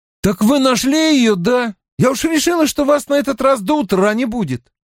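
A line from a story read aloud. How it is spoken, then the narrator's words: Shouting. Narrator (Russian): его сосед крикнул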